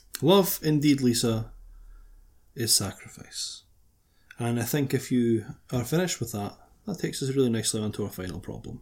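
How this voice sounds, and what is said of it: Radio presenter voice. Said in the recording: “It's like my radio voice there. ... I decided to just go for a little radio transition”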